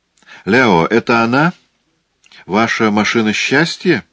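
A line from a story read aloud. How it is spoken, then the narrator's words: Grandfather's quiet question. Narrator (Russian): Дедушка Сполдинг негромко спросил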